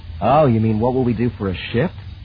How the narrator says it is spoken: Han sighed

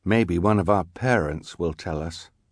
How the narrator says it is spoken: Klaus said quietly

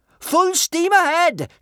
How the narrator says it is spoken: shouted Kamikaze

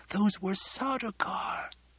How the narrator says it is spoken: one of his men whispered

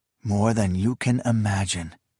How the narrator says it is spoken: he whispered

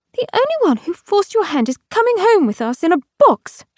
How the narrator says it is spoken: cried out

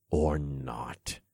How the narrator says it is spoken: I growled

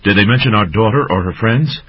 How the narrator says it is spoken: Song's mother inquired anxiously

